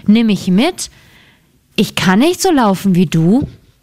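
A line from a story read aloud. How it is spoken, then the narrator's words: Frog calling. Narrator (German): rief der Frosch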